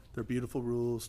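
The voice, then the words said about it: Bad Donald Trump impression. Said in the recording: “that was a bad Donald Trump impression.”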